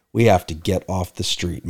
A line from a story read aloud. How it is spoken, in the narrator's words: Mike whispered in my ear